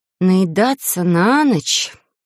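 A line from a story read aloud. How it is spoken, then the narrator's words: Uncertain drawl. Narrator (Russian): протянула неуверенно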